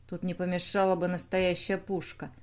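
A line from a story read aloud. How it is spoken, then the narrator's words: Muttering. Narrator (Russian): пробормотал Бернар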